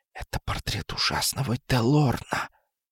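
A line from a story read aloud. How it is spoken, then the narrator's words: Whispered. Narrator (Russian): Кузина прошептала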